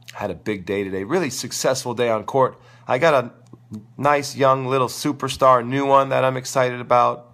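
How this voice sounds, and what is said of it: Crackly, strained voice. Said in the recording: “losing my voice. If my voice is a little crackly, I got sore throat.”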